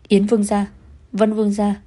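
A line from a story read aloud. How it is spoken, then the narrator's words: Excited crowd shouting. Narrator (Vietnamese): Dân chúng đông nghịt người, kích động hét lên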